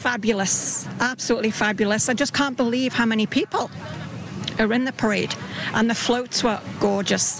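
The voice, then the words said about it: Slight British accent. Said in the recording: “I detect a little bit of a British accent.”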